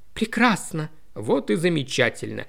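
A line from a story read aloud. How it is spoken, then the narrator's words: Slightly hoarse reply. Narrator (Russian): Хрипловато откликнулся Фрэнк, что-то в его голосе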